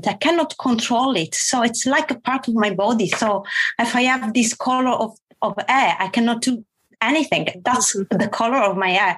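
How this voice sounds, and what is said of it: Italian accent with mixed influences. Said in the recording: “the accent I have is the Italian accent plus other accent coming from all the languages I was exposed to during my life”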